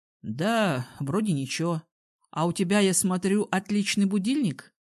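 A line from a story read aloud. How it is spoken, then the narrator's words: Young man smirking. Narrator (Russian): хмыкнул молодой человек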